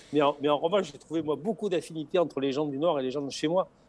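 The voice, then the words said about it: Singsong southern French accent. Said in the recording (French): “vous avez compris à mon accent que je ne suis pas né à, ... Dunkerque. ... accent mais, chantant. ... Nous, chez nous, dans, le Sud”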